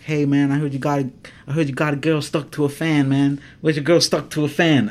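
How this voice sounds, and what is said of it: Put-on Mexican accent. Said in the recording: “I come in a Mexican accent ... you play a Mexican guy, come in, be a Mexican guy ... You can do voices like that”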